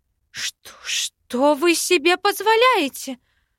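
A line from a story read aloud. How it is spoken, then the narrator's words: Shrill shriek. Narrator (Russian): взвизгнула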